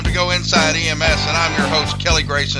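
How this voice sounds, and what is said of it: Carnival barker style announcer voice. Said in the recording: “pretty good impersonation... do your best Chris Cebollero impersonation... trying to channel my inner Carnival Barker... Step right up, folks”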